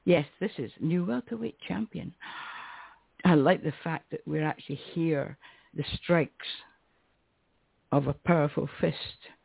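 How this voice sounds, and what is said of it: Strained, fading voice. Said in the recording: “I'm losing my voice again”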